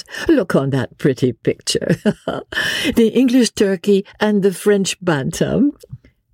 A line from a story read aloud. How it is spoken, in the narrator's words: said Marguerite, with one of her merry infectious laughs